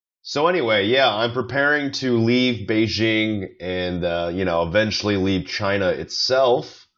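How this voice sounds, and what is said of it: Rough, worn-out voice. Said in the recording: “my voice sounds a bit like I'm on death's door”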